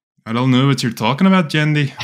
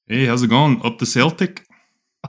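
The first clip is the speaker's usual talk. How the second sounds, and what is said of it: Put-on Scottish accent. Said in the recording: “what the feck was that Scottish accent? ... Scottish friend just walked into the room.”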